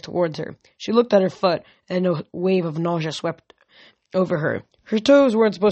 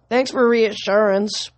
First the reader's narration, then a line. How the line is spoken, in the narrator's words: Piper groaned